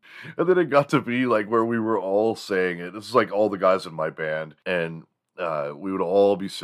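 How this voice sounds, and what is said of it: Usual voice. Nothing is said of it.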